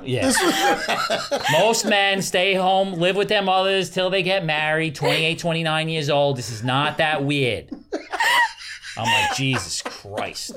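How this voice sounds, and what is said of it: Italian New Jersey man impression. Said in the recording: “That was such a good impression. ... So good.”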